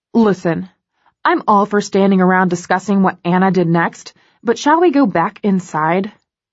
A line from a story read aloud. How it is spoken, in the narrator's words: Kate snaps